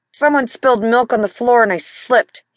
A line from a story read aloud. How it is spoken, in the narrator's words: he said through gritted teeth